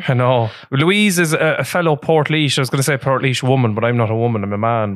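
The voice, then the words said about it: Rural Irish Midlands accent. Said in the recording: “you can hear by your accent... I sound the way I sound, kind of bogger.”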